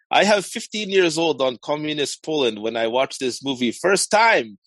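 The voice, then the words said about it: Put-on Eastern European accent. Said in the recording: “I feel like I might have to use, like, a Russian accent ... a Ukrainian accent. You're doing a Ukrainian accent. ... Well, Eastern European, we'll say.”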